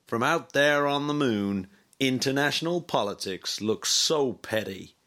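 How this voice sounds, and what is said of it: American accent. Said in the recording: “You know that was an American accent.”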